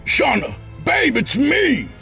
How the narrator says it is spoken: he screamed

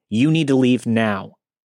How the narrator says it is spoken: firmly said

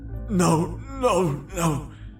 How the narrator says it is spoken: I cried pathetically

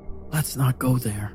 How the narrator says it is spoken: I said quietly

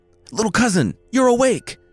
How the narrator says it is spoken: the youth cried

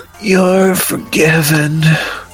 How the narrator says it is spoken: she groaned

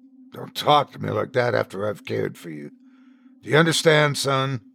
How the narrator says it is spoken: I sighed

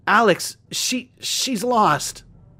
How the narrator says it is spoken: I whimpered and meekly stammered

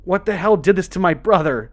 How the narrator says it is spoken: she sobbed

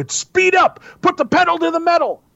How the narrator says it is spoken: I shouted

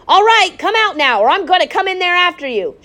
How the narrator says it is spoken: shouted Frederick

